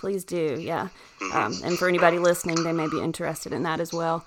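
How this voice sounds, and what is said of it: American country dialect. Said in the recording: “I have a country dialect ... I'm very country for America.”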